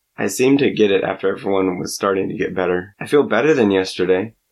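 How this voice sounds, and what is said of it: Sick, rough-sounding voice. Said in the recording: “I just don't sound any better ... this wonderful radio voice”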